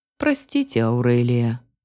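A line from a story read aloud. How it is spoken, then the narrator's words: Guilty sigh. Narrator (Russian): виновато вздохнул Линос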